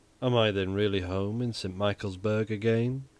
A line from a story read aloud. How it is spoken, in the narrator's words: he murmured, without unclosing his eyes